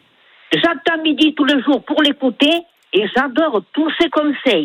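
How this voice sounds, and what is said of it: Sing-song regional French accent. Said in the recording (French): “votre accent chantant”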